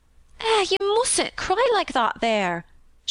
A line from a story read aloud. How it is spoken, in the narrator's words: she begged